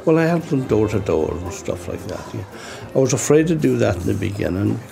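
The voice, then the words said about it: Irish accent, brogue. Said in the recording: “a jolly old Irishman. He has the brogue ... my Irish accent”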